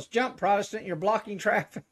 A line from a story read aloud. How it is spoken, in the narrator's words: Cop yells